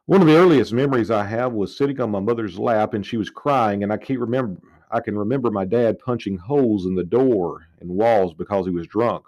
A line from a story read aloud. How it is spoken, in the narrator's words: says Rouse